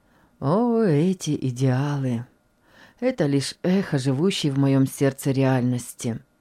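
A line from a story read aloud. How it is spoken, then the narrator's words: Calm reply. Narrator (Russian): спокойно ответил доктор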